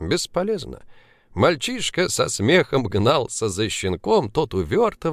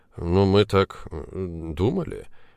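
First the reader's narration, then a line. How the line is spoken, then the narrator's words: Confused mumble. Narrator (Russian): растерянно пробормотал Пургин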